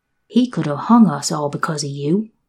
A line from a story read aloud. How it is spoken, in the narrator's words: she growled at last